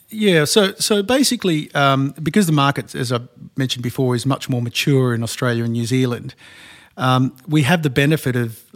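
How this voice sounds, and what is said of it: Australian accent. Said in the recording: “as your accent suggests, you're not from around these parts ... brought from Australia”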